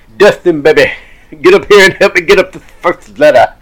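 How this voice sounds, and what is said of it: Imitates another person's voice. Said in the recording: “Dusty's like ... That's actually not terrible. That is not terrible.”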